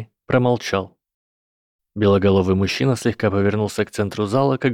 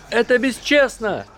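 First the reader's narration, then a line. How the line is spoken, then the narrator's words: Exclaimed. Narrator (Russian): воскликнул кто-то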